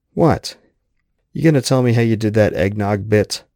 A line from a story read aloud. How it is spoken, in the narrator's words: Crystal burst out laughing